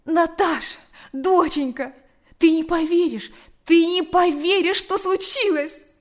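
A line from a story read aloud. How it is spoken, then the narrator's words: Nonstop excited talking. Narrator (Russian): Она говорила и говорила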